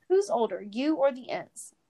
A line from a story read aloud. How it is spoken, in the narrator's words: Tom laughed